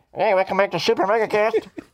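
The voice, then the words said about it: Thin bassless AM radio voice. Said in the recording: “It'll remove all the bass from our voice ... that's pretty good. That really does eliminate a lot of the bass.”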